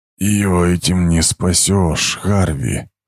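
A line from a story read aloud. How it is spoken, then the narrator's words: Quiet, hoarse. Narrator (Russian): Голос Аминанха был тихим, хриплым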